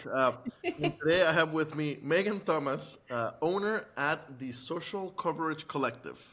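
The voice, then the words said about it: Exaggerated radio announcer voice. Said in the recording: “switching to my radio voice”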